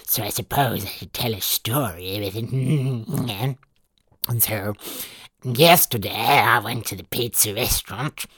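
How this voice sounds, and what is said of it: Small gremlin character voice. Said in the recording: “This is my little gremlin voice. I am going to talk like a little gremlin”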